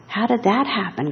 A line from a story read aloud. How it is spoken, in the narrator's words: gasped her mother